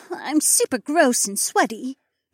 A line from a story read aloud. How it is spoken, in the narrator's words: Becca moaned